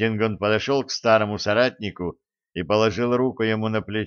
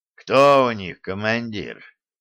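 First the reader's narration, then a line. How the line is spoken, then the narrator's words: Heavy sigh, after a pause. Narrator (Russian): только тяжело вздохнул и, помолчав немного, сказал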